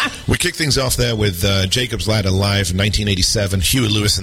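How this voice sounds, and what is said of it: Usual voice. Nothing is said of it.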